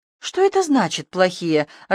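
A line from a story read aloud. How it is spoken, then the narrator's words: Confused question. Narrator (Russian): растерянно переспросила я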